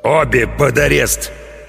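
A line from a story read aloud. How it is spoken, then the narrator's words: Growled. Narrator (Russian): прорычал капитан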